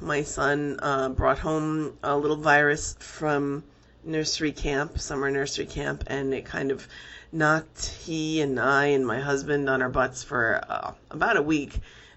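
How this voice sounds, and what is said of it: Voice affected by a cold. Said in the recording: “if you can hear it in my voice, I'm recovering from a cold.”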